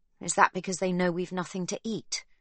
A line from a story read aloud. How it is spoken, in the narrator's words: Magda snaps